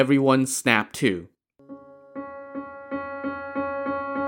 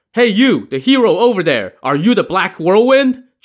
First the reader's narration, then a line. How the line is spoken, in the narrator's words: Chao Gai shouted in Li Kui's direction